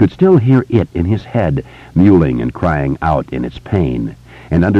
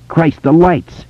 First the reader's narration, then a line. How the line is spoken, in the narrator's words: Richie shouted